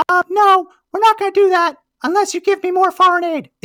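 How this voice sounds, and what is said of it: Imitates another person's voice. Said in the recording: “my Nancy Pelosi impression is terrible”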